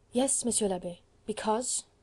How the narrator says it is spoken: queried Marguerite gently

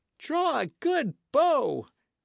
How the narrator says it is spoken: cried Appleyard

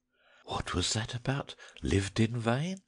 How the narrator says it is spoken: whispered one student to another

